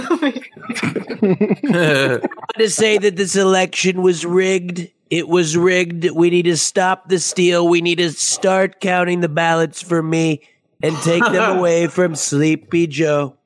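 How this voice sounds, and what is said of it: Donald Trump impression. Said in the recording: “Your Trump impression is amazing”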